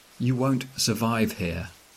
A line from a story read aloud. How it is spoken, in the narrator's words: my wife says